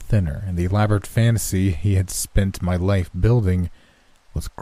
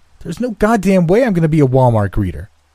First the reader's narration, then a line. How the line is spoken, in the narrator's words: shouted